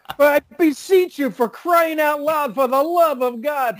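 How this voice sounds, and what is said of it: Put-on New York accent. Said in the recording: “I can picture a New York accent”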